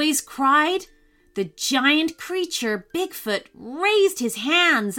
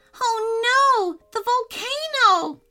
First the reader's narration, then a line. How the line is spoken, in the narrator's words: Caleb cried